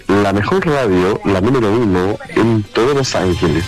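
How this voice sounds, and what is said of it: Radio announcer voice. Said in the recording (Spanish): “una voz de locutor ... Esa voz es como para radio ... Como una voz de así como cooperativa”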